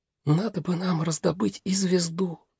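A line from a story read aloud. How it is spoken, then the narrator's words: Whisper. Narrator (Russian): прошептала мама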